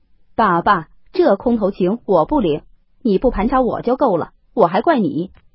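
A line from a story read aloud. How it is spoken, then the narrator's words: Laughing. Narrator (Chinese): 贾琏笑道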